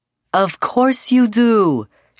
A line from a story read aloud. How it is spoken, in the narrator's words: she laughed warmly